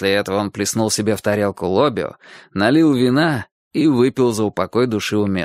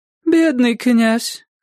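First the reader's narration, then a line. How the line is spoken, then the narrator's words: Sigh. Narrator (Russian): вздохнула его жена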